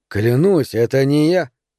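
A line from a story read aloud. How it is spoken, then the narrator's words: Even-voiced reply. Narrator (Russian): ровным голосом ответил Бадди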